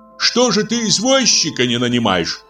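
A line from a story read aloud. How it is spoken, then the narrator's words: Shout. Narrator (Russian): крикнул Владимир Семенович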